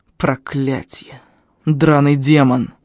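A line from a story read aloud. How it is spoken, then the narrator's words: Old man's angry hiss. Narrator (Russian): зло прошипел старик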